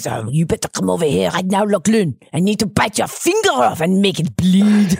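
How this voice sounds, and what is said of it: Put-on French accent dog voice. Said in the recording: “I do Alfie's voice in a French voice because he's a French bulldog”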